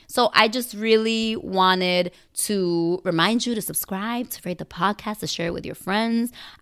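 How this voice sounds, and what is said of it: Slightly raspy voice. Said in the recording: “I was sick for a week... my voice was 100%. It's still not 100%. I still have a little raspy, sexy voice”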